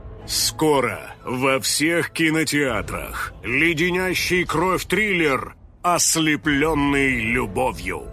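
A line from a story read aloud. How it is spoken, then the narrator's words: Booming announcer voice. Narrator (Russian): прогремел голос диктора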